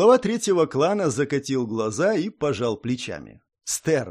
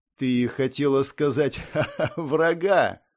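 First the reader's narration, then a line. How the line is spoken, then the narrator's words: Laughing. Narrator (Russian): снова рассмеялся Иристин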